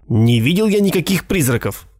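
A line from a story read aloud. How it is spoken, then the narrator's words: Irritated objection. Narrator (Russian): раздраженно возразил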